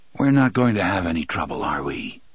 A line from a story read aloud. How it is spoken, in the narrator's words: the spook asked in his dead voice